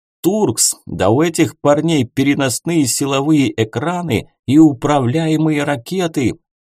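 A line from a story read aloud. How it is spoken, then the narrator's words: Commander yelling over radio. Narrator (Russian): заорал по связи командир десантной группы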